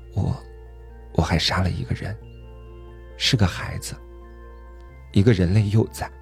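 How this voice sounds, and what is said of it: Very quiet, faltering voice. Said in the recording (Chinese): “用极小的声音说”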